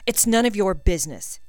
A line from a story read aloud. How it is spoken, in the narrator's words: he snapped